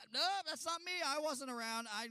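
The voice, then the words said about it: Put-on Texas accent. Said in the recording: “Your accent's giving you away there, Texas. Calm down. We know you're from Texas”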